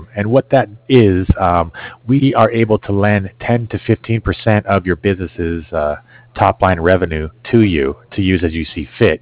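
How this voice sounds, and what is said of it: Hoarse, failing voice. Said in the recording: “excuse me, I'm losing my voice here”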